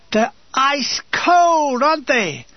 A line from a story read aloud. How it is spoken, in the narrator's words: My screams ring through the building